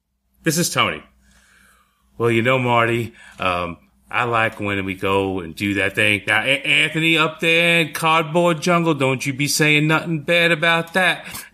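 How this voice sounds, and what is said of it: Put-on Southern accent, somewhat Boston-like. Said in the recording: “I'm laughing at your southern accent. ... But that's a Boston accent. ... It's close enough”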